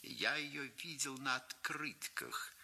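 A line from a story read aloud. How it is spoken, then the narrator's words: Flat, expressionless voice. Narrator (Russian): сказал господин из Сан-Франциско ничего не выражающим голосом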